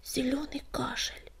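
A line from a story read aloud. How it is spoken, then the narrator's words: Whisper, anger suddenly gone. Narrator (Russian): прошептал Огнегрив, мгновенно забыв о своей злости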